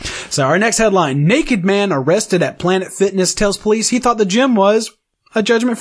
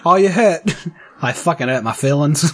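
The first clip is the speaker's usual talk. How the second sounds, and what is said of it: Inconsistent put-on accent. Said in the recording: “Fucking accents all over the place. But, you know, whatever. I nailed that last one.”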